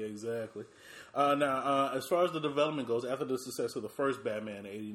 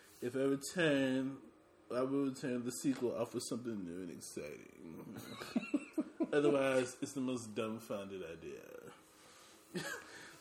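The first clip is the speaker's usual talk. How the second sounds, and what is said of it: Tim Burton impression. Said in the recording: “do my Tim Burton voice.”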